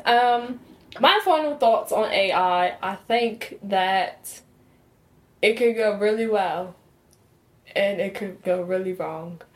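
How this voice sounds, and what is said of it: Put-on accent, hard to place. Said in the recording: “sound a little African. Afro-Brit, Jamaican, ... Southern British? ... She's doing her best. ... Doing my best to keep this accent.”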